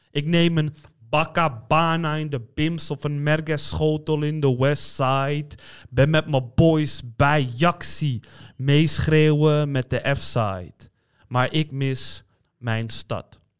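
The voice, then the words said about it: Amsterdam accent in recited poem. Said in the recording (Dutch): “met een Amsterdamse accent. Ja, dat was een Amsterdamse accent.”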